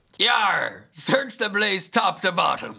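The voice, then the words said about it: Loud pirate accent. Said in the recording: “pirate accent ... Very loud.”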